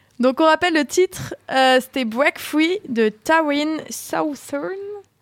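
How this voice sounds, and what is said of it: Very thick accent on English words. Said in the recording (French): “Excusez mon accent coupé au couteau.”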